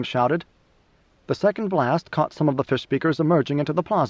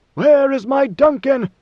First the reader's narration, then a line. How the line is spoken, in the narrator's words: Leto bellowed